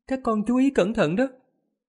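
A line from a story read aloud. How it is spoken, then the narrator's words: Smiling. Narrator (Vietnamese): Tu Như cũng mỉm cười nói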